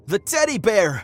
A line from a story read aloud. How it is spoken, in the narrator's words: started to scream